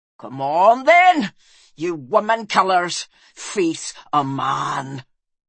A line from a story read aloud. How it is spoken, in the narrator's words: he snarled